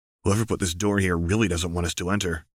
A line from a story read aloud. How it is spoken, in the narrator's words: Othniel murmured